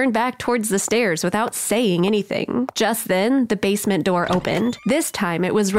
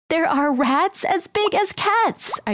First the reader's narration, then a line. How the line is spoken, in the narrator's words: I screamed